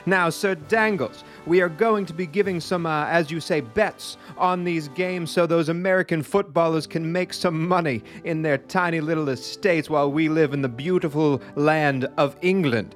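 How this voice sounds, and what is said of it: Put-on posh English accent. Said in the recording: “This accent is going nowhere”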